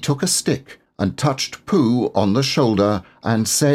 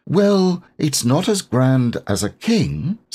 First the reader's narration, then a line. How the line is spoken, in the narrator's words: said Christopher Robin